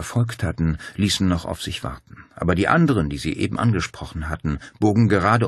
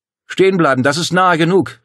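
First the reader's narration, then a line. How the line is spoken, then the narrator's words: Called out. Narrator (German): rief Claudia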